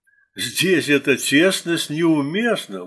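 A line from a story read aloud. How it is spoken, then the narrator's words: Exclaimed. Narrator (Russian): воскликнул Бом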